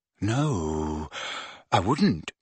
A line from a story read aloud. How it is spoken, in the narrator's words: said Ron in a very quiet voice